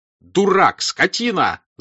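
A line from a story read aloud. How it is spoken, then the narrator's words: Angry shouting. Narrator (Russian): закричал Пьер, что редко с ним случалось, ругая своего кучера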